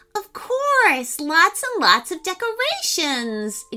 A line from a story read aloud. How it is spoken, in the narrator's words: exclaimed Emmy enthusiastically